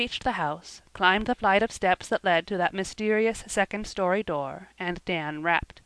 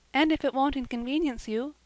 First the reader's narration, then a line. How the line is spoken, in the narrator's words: said Cecily timidly